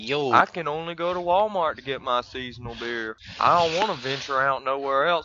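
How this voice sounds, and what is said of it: Mocking hillbilly-style imitation of another person. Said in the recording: “Is that what I sound like? ... That's exactly what you sound like ... you sound like a hillbilly.”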